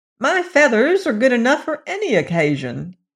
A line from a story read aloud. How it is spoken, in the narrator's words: cried Billina